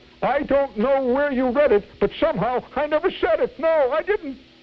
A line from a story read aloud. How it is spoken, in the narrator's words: howled